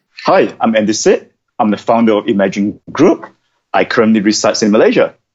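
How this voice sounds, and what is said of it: Malaysian accent. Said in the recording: “is from Malaysia, as you probably could tell by the accent”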